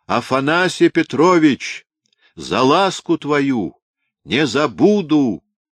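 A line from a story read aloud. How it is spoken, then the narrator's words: Shouted. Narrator (Russian): крикнул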